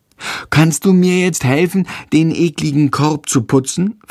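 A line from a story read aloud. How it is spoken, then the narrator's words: Plain question. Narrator (German): fragt Tom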